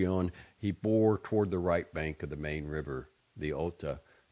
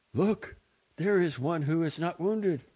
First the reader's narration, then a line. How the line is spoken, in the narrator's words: several exclaimed